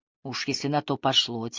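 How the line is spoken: Quiet. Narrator (Russian): тихо сказала Хелен

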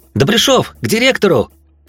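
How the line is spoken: Shouted. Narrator (Russian): Зёма и, выкрикнув сообщение

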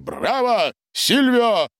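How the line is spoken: Shouted. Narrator (Russian): выкрикнул Гарин

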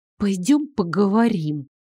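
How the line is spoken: Through gritted teeth. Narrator (Russian): сквозь зубы проговорила она

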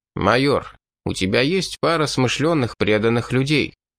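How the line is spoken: Plain. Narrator (Russian): спросил Беркс

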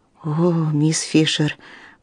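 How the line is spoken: Whisper. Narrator (Russian): прошептала Линдсей

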